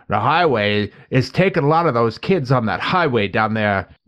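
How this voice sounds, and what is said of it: Imitates an old man's voice. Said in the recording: “Fred Gwynn plays the old man ... When I do that impression, I sound like Christopher Walken.”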